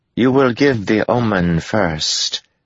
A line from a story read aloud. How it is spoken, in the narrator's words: Tuan said, her tone unchanged